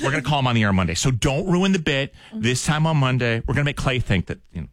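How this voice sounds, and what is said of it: Usual voice. Nothing is said of it.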